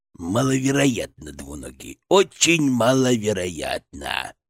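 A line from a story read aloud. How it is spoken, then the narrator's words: Creaky voice. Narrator (Russian): проскрипел он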